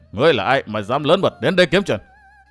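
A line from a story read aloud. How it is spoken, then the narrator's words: Sneering question. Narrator (Vietnamese): Hắn cười khẩy hỏi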